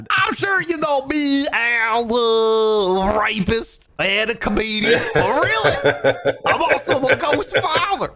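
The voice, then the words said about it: Imitates another person's voice. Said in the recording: “That's a good impression. ... It's honestly a lot better than I could possibly do. ... My Bill Cosby impression.”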